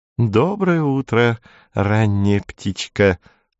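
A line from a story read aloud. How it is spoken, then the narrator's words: Cooing. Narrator (Russian): проворковала она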